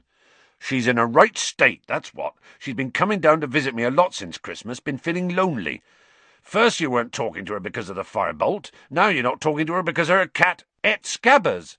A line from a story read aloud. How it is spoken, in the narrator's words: Ron interjected angrily